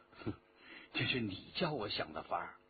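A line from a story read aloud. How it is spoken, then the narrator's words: Laughing, low voice. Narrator (Chinese): 徐天红笑着低声说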